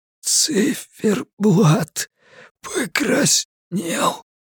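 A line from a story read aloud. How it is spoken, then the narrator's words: Wheezing, coughing man. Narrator (Russian): просипел лежащий на полу мужчина и закашлялся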